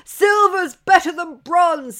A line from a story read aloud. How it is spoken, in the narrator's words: mocked